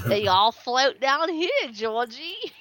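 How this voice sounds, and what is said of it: Imitates a horror clown voice. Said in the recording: “You did the Tim Curry voice, too. You did the Tim Curry voice.”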